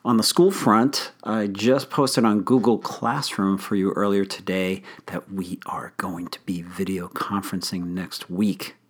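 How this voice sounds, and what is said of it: Slightly hoarse, strained voice. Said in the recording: “I'm losing my voice a little bit today”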